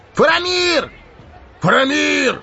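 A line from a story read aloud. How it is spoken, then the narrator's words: Crowd shouting. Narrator (Russian): кричали вокруг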